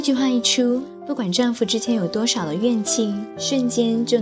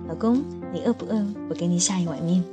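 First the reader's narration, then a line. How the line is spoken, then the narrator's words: Tender, gentle. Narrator (Chinese): 每次争吵过后，妻子都会用温柔的语气对丈夫说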